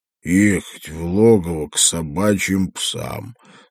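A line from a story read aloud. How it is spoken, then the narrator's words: Through gritted teeth. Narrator (Russian): слова Радок цедил сквозь зубы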